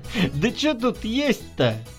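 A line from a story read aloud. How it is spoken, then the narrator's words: Laughing. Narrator (Russian): засмеялся Николай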